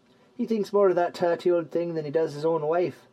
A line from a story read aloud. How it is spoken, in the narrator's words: chuckled Gallius